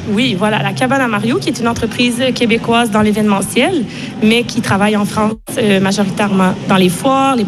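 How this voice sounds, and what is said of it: Slight foreign French accent. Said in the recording (French): “vous avez entendu ce léger accent”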